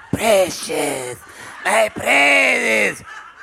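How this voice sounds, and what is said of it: Gollum character voice. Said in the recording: “That was my Gollum impression... I don't think that was that good.”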